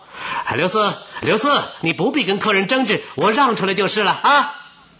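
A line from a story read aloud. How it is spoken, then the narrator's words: Loud call. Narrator (Chinese): 王有龄大声招呼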